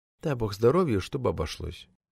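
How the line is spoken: Whisper. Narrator (Russian): Гардеробщик Зимин шепнул

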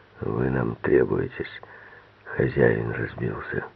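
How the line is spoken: Hoarse asthmatic voice. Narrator (Russian): Боксер сказал сиплым голосом астматика

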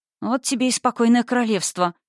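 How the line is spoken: Muttering. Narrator (Russian): пробормотала я

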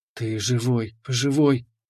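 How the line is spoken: Trembling whisper. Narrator (Russian): шептала, дрожит всем телом

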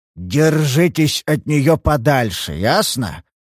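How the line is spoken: Sheriff growling. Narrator (Russian): зарычал шериф

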